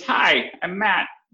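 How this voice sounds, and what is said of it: Imitates another person's voice. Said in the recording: “That's my Matt impression.”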